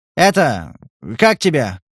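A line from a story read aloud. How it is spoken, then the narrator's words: Shout. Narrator (Russian): крикнул вслед хозяин кабинета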